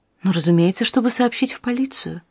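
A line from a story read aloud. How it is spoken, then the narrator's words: Quiet. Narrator (Russian): тихо сказала доктор Макмиллан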